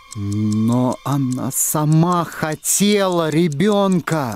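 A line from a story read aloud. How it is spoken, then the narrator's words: Forced out, reluctant. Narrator (Russian): выдавил наконец Торн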